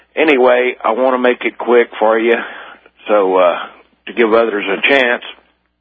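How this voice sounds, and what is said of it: Slow southern US accent. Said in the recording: “from Lake Charles, Louisiana, hence the slow southern accent.”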